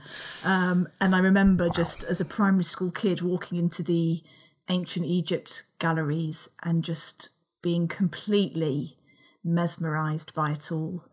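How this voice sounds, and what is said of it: South London accent. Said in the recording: “as people can probably tell from my accent, I grew up down south, in London. South.”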